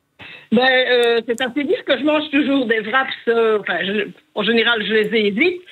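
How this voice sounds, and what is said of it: Belgian Liège regional accent. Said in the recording (French): “J'adore votre accent. J'adore. ... province de Liège”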